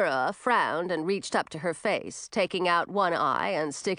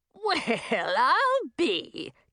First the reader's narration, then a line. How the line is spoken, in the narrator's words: cackled Madine